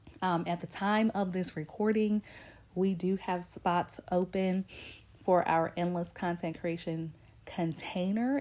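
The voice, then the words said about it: Congested, stuffed-up sick voice. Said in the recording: “I am pretty sick today. I'm really stopped up and clogged up, which you could probably hear in my voice.”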